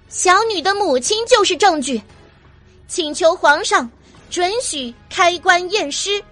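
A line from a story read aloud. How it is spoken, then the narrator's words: Firm, deliberate, loud. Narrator (Chinese): 阮明心依旧坚定的一字一句的高声的重复了一遍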